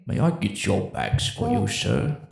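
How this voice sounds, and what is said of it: Imitates another person's voice. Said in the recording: “That was a really good impression.”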